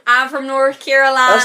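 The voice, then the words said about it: Poor put-on Southern American accent. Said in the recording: “Southern American accents ... Please excuse my terrible accent”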